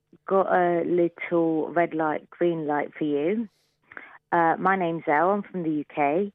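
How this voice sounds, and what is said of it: British accent. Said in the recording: “I love her accent so much.”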